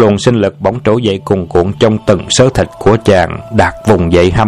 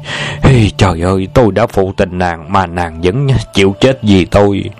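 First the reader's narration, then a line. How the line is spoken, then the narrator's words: Collapsing, moaning. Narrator (Vietnamese): Đạt ngã vật ra sàn nhà rên rỉ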